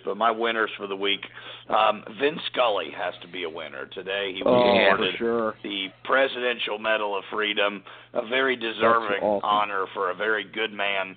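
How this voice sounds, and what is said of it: Hoarse, strained, fading voice. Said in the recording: “I'm completely losing my voice.”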